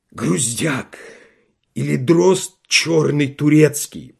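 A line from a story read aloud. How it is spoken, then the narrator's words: Hoarse wheeze. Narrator (Russian): прохрипел он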